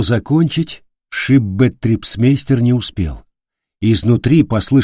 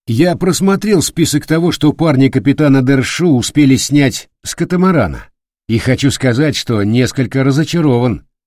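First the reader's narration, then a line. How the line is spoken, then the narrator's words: Loud. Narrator (Russian): громко произнес Бабарский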